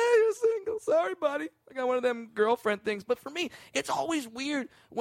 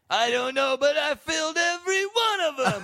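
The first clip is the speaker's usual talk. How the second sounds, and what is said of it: Imitates another person's voice. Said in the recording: “Every time you do an impression ... I'm doing Jay Moore doing dice.”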